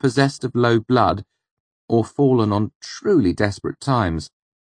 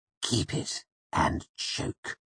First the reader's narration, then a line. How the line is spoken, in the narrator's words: he hissed at me in a low voice